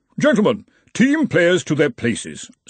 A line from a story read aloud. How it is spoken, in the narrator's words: said the Arch-Chancellor of Brazenek haughtily